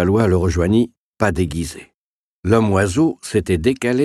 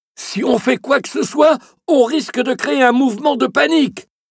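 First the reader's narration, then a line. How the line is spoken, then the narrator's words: Shouted into ear. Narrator (French): hurla Levallois à l'oreille de Nicolas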